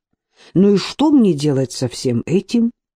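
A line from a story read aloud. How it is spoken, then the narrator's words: Indignant self-question. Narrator (Russian): возмущенно спросила Алена сама себя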